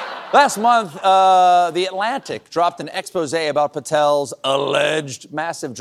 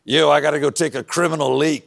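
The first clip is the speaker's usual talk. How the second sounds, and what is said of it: Kash Patel impression. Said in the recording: “That was my Kash Patel impression.”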